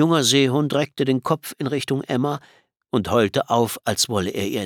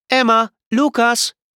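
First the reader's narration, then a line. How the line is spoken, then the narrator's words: Call. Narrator (German): rief Mama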